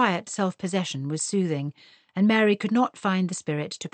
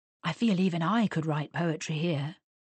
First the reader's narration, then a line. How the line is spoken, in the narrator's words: murmured Mr